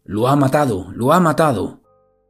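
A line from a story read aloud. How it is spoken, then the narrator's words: Panicked shouting while running. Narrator (Spanish): entra en pánico y comienza a correr por la calle gritando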